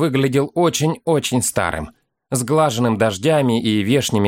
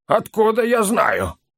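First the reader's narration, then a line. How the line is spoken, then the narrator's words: Muffled reply. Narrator (Russian): глухо отозвался Ловчи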